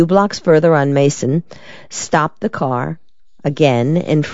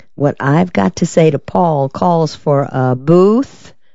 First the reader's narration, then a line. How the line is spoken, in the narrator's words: Della drawled